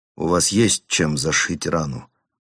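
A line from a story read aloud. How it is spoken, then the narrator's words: Muttering. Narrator (Russian): пробормотал он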